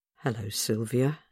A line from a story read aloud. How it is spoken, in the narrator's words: she said gently